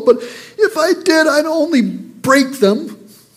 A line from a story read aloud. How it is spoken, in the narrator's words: the little boy bawled